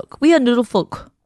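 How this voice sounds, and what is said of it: Weird put-on accent. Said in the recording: “That's a weird accent that I put on”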